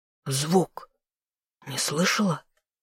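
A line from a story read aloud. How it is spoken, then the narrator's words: Whisper. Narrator (Russian): прошептал новый герцог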